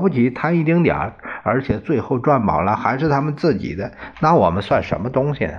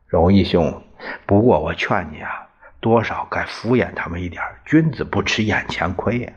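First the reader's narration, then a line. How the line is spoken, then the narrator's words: Sighing. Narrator (Chinese): 王小赖叹了口气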